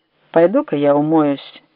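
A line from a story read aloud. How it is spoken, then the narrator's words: Even voice. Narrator (Russian): сказал он ровным голосом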